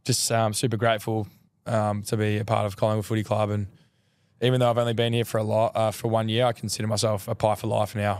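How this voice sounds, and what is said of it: Hoarse, strained voice. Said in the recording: “As you can tell, my voice, I've lost my voice.”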